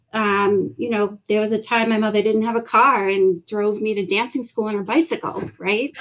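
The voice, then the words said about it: Boston accent. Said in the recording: “for anybody who can't place the accent ... South Shore is Boston”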